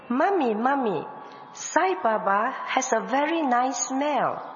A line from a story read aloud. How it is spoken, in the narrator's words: my older son, Ernest, who was 3 years old then, came running to me, exclaiming